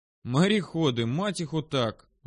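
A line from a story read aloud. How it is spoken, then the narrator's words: Sighing, in Russian. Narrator (Russian): вздохнул я, сказав это все на русском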